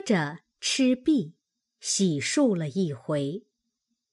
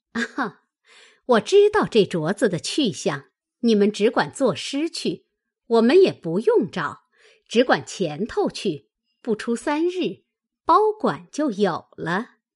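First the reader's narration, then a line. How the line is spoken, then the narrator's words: Woman laughing. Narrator (Chinese): 凤姐儿笑道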